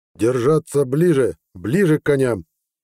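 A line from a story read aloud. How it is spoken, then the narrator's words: Roaring command. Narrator (Russian): взревел Хеверат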